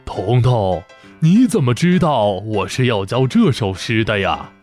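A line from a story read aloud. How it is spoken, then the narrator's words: Surprised, smiling old man. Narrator (Chinese): 老先生惊讶地…笑着点头说道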